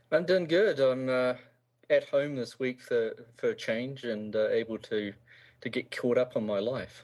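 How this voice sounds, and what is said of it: Strong New Zealand accent. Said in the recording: “you're a New Zealander ... you haven't lost your accent. Like, you sound to me like you just left yesterday.”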